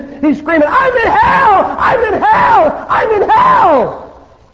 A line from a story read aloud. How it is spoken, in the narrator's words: he's screaming